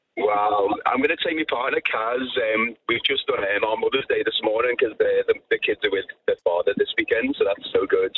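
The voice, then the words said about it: Liverpool English accent. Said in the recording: “I'm from Liverpool in England ... Sounded a bit Irish ... Sounded Irish ... he sounded like one of the Beatles”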